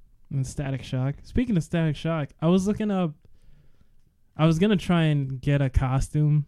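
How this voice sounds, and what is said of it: Usual voice. Nothing is said of it.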